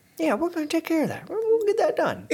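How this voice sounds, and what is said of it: Imitates another person's voice. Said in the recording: “my impression of competent Joe Biden”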